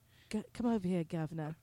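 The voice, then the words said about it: Put-on British accent. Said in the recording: “If sexy talk would work with that accent.”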